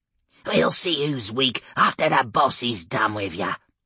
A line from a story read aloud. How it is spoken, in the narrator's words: the orc hissed back